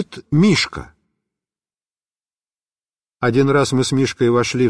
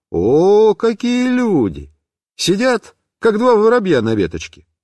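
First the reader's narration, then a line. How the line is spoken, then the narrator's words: Cheerful. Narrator (Russian): весело сказал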